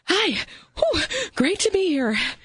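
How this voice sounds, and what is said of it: Out of breath, panting. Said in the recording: “why are you so out of breath?”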